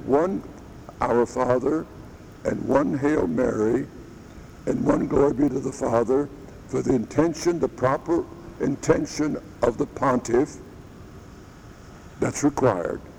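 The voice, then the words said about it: Strained, troubled voice. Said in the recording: “sorry about my voice. I don't know what's wrong with it. It's acting crazy ... Only the voice feels terrible. Hope you can understand me.”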